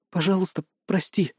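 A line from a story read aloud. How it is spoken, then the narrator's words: Barely audible. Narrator (Russian): едва слышно повторила она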